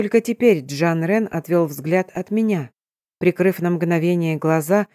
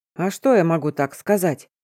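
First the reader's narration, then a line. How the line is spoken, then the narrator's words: Man's snort. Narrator (Russian): мужчина хмыкнул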